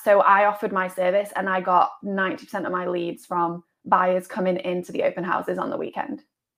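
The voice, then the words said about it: Distinctive accent. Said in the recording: “I think my accent did help a little ... you stand out”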